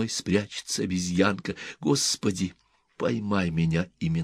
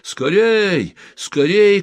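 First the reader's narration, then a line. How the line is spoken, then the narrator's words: Distant shouting. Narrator (Russian): кричали с того берега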